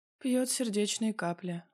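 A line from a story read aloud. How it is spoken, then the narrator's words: Sighing. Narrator (Russian): мама вздохнула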